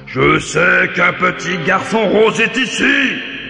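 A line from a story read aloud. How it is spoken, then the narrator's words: Giant's growl. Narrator (French): grogne le géant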